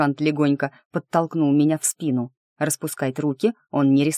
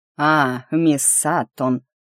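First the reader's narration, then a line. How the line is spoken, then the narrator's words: Drawling, less warm. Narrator (Russian): протянул он без прежней задушевности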